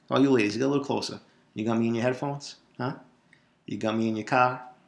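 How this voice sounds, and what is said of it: Slowed, heavy Boston accent. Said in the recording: “the Boston accent, this accent ... I'm not doing it as Boston for the podcast, but imagine talking to me in person. Let me slow it down a little bit.”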